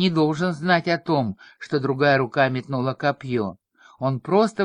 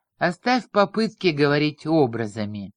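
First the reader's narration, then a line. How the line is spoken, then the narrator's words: Dismissive snort. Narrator (Russian): пренебрежительно хмыкнул грандмастер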